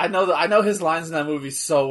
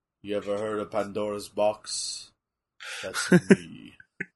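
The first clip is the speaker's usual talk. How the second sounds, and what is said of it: Imitates a movie villain's voice. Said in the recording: “in my Shao Kahn voice, where I mimic Shao Kahn from the Mortal Kombat Annihilation movie”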